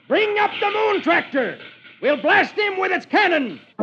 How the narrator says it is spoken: One of the pirates shouts

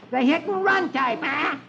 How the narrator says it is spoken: Dewey yells

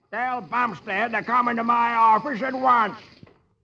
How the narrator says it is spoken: he roars

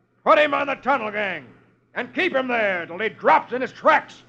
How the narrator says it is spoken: man with the bullwhip roars

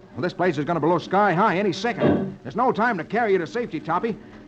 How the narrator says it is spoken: Roy exclaims

